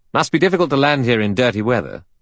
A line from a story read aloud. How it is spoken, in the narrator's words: Philip Lombard said sharply